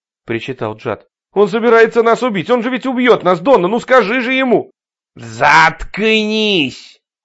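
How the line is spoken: Barked. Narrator (Russian): рявкнул Рой

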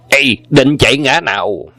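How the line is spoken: Loud shout in unison. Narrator (Vietnamese): Anh em song quái đồng quát to

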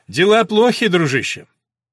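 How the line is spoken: Loud. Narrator (Russian): сказал громко

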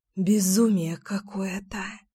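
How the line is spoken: Exhaled exclamation. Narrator (Russian): выдохнула я

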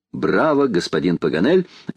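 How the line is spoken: Cheerful laughter. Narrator (Russian): весело смеялась леди Элен

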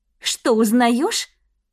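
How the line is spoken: Indignant, through clenched teeth. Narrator (Russian): Стас с нескрываемым возмущением процедил сквозь зубы

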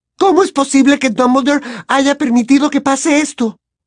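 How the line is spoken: Sudden shout. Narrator (Spanish): gritó de pronto Hermione, sobresaltando a sus amigos

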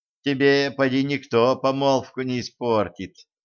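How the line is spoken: Princess sighing. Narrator (Russian): вздохнула царевна

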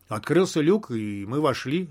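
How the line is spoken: Calm explanation. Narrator (Russian): спокойно объяснил я

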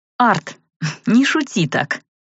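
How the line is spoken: Snorting. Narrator (Russian): фыркнула я

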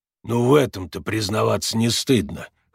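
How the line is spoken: Snorting. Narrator (Russian): хмыкнул Макс

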